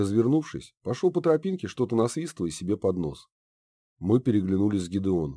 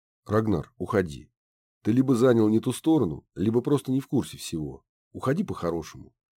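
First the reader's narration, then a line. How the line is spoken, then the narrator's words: Calm. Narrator (Russian): спокойным тоном произнес Гедеон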